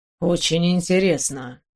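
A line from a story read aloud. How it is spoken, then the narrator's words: Muttering. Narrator (Russian): пробормотал он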